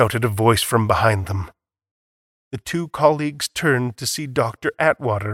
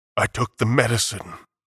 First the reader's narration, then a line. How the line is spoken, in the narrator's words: murmured